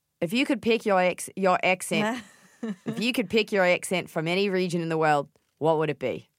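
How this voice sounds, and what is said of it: Put-on Australian accent. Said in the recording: “Can you do an Australian accent? ... That's actually really good.”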